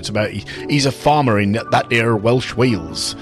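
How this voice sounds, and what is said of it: Put-on Yorkshire Cornish accent. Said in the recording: “I did a Yorkshire Cornish accent there”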